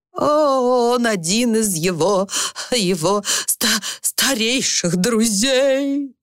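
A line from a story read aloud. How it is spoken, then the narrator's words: Hysterical wail. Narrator (Russian): взвыла окончательно утратившая над собой контроль мисс Энтуисл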